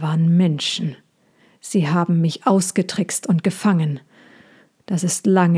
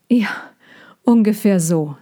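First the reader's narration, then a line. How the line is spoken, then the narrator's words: Said with slight laugh. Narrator (German): sagte Sejana und lachte ein bisschen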